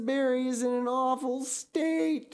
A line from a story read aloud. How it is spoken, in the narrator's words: she wailed